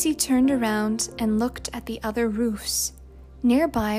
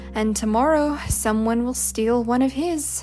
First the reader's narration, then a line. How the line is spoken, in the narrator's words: said Johnny